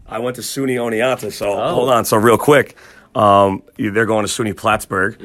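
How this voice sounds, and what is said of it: New York accent. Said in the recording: “I feel like you got a New York accent.”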